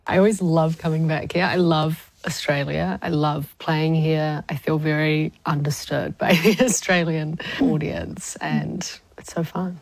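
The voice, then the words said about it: New Zealand accent, sounds Australian. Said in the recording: “you sound Australian. ... that accent. ... obviously you're a Kiwi”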